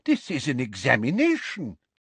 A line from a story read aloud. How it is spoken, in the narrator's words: said Professor Tofty in a scandalized voice